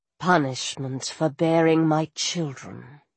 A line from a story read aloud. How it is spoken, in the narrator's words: she said bitterly